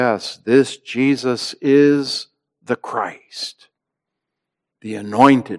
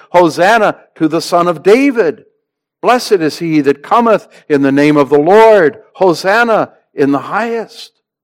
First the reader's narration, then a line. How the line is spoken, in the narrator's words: many from this very multitude had shouted